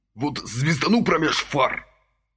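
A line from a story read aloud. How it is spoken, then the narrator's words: Hiss. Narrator (Russian): прошипел Василий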